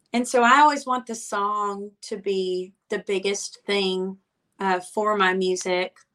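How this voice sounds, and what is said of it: Alabama Southern accent. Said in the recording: “I also really can't hide my accent. That's very Alabama.”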